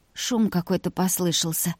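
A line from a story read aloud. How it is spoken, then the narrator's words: Hoarse mutter. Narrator (Russian): хрипло пробормотала она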